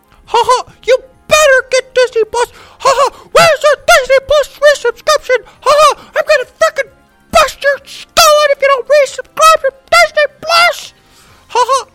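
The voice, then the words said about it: Evil cartoon mouse character voice. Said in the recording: “go off in some weird accent like evil Mickey Mouse”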